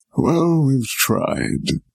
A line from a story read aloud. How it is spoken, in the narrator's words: sighed the wizard